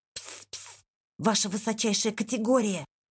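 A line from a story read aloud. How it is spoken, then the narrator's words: Hiss. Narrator (Russian): прошипел Шпик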